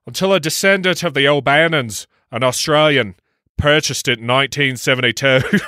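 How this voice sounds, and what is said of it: Put-on Australian-Irish accent. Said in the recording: “in your best Australian, by the way, of Ireland accent... Australian-Irish accent... Perfection.”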